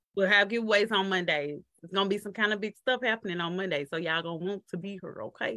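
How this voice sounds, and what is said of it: Southern American accent. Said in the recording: “I love her Southern accent.”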